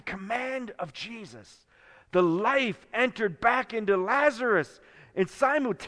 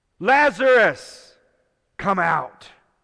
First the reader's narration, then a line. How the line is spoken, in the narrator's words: Jesus called out in a loud voice